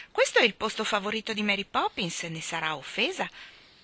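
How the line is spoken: Exclaiming. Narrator (Italian): esclamò Michael

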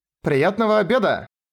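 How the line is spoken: Woman calling after someone. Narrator (Russian): крикнула вслед одна из секретарей

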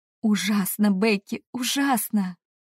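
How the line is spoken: Moaned. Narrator (Russian): Простонала я

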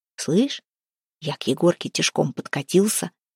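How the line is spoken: Whispering. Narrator (Russian): зашептал Харапун

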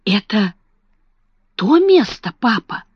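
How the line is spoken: Whisper. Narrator (Russian): прошептала Сара

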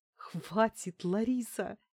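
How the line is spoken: Giggling. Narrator (Russian): хихикнула я

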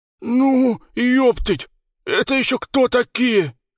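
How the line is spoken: Long drawn roar. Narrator (Russian): Протяжно взревел Леха

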